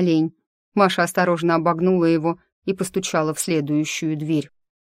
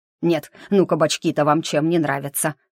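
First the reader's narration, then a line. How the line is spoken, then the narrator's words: Grumbling under breath. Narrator (Russian): ворчал он себе под нос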